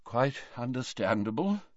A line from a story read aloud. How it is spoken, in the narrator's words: murmured Dumbledore